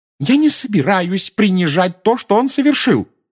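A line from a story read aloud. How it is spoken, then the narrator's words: Shout. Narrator (Russian): закричала миссис Уизли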